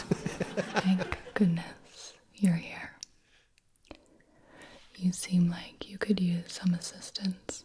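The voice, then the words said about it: Soft ASMR whispering. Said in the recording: “Apparently it's triggered by whispering.”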